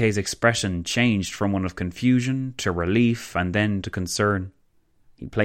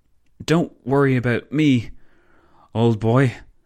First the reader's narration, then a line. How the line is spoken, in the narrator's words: the Belgian stammered